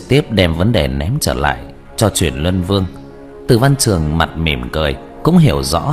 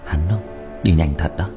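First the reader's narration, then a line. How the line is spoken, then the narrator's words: Quiet, sighing. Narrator (Vietnamese): Diệp Thiếu Dương thở dài một hơi, âm thầm nói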